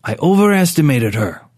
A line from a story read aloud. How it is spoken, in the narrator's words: Rourke said curtly